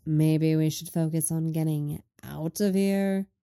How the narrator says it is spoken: Lenny drawls

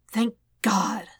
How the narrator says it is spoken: Spidey breathed

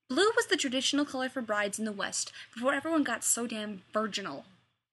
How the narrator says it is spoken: Rodney snaps

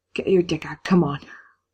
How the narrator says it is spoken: with huge, gasping breaths, Dean he says

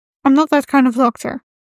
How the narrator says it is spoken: Rodney said quickly

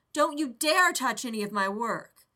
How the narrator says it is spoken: Rodney yelled

